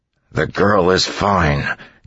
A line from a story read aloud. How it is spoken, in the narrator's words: Kelsier said through gritted teeth